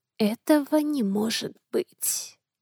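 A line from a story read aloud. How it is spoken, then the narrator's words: Quiet whisper. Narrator (Russian): Тихо прошептала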